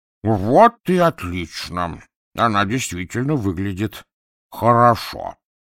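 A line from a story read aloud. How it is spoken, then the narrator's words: Angry grunt. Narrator (Russian): злобно крякнул и сказал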